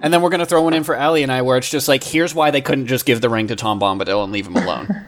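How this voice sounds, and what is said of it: Usual voice. Nothing is said of it.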